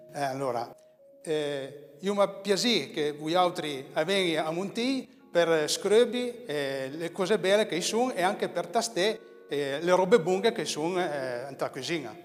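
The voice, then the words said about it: Attempted Piedmontese dialect. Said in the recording (Italian): “Vogliamo fare un invito a venire a visitare Montiglio nel dialetto piemontese? ... Ci provo.”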